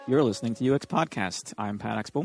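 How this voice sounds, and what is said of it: Tired, low-energy voice. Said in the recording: “could have put a little bit more effort into that. ... You sound exhausted.”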